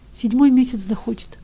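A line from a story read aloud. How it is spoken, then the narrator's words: Tearful reply. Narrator (Russian): отвечал Ивка все еще сквозь слезы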